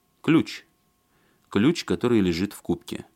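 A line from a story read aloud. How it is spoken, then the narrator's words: Calm. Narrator (Russian): спокойно сказал Алексей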